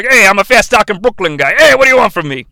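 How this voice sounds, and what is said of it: Put-on fast-talking Brooklyn accent. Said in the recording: “who's got a Brooklyn accent”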